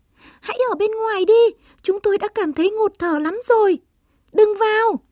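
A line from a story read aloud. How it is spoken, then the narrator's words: Squeaky cry. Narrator (Vietnamese): Chuột chít chít kêu lên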